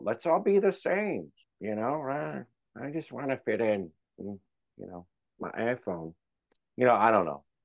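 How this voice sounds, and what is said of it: Mocking nerd voice. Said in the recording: “That was my bad nerd voice ... oh, he's a nerd now”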